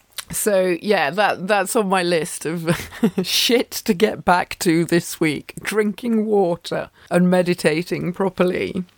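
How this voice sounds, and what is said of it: Slightly croaky voice. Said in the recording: “you can even hear it in my voice. My voice is a little bit croaky, and it's dehydration”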